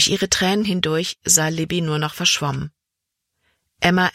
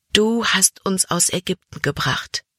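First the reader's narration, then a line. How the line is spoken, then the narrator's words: Sighing. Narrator (German): seufzte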